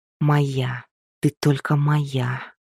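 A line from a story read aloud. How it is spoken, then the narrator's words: Whispered. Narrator (Russian): прошептал он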